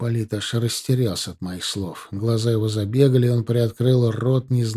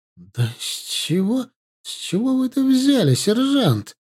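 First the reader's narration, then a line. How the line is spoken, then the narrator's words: Forced out reluctantly. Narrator (Russian): наконец выдавил из себя он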